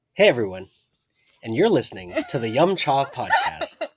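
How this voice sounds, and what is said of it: Announcer voice. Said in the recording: “Do it in the announcer voice again.”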